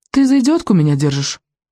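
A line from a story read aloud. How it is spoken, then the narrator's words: Offended girl snapping. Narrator (Russian): огрызнулась девочка, оскорбленная в своих лучших чувствах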